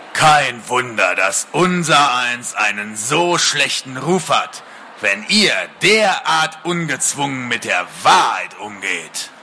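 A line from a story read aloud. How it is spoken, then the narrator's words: Deep dragon voice. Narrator (German): sagte der Drache mit tiefer Stimme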